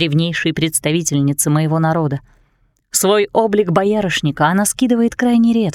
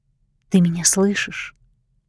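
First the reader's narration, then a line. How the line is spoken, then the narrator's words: Whisper. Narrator (Russian): прошептала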